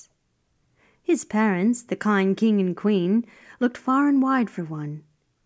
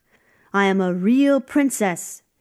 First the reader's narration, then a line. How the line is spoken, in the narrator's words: shouted the wet princess